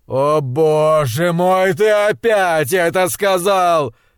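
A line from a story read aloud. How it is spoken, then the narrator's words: Roar. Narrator (Russian): взревел он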